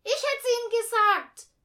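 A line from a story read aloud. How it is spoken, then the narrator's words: Interjecting call. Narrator (German): rief Eugenia dazwischen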